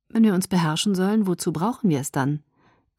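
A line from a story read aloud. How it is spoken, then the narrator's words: Sighing again. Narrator (German): Er seufzte wieder zum 100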